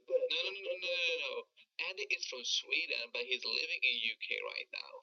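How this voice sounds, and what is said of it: American accent. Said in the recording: “I wouldn't have this American accent”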